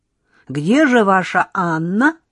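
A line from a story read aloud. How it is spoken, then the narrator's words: Loud question, cut short. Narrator (Russian): громко поинтересовалась Лёлька, но тут же осеклась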